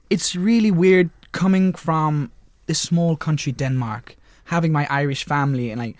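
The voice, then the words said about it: Danish accent with Irish twang. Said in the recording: “you have got that really interesting accent because one minute you're Danish and then the Irish twang really came out then.”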